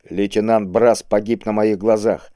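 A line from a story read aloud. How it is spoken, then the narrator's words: Calm confident objection. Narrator (Russian): спокойно и уверенно возразил ему Кабонга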